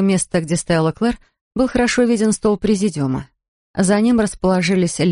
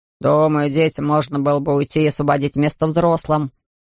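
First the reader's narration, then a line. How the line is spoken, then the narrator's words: Man grumbling. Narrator (Russian): проворчал какой-то мужчина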